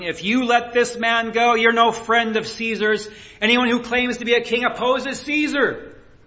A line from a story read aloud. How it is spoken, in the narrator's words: The Jewish leaders kept shouting